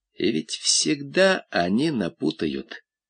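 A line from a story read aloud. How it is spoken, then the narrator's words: Quiet, from below. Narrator (Russian): негромко сказали внизу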